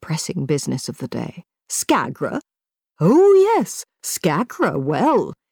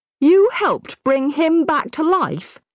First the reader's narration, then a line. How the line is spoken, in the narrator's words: he shouted